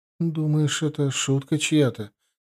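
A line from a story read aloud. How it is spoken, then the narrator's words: Uncertain question. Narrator (Russian): неуверенно спросила Диана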